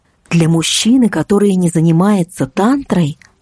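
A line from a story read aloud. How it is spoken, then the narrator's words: Plain. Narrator (Russian): ответила наставница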